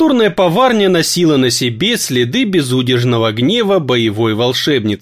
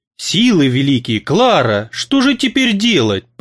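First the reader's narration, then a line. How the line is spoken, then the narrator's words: Aunt groaning. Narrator (Russian): простонала тетушка Аглая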